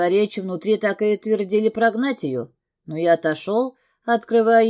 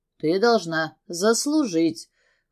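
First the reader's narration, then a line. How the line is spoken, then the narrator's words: Smirking grunt. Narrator (Russian): хмыкнул я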